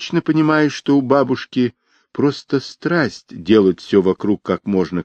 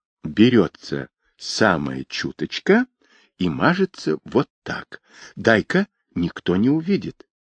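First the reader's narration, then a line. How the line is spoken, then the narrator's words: Quiet. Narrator (Russian): тихонько сказала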